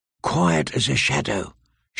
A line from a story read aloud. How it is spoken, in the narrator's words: she whispered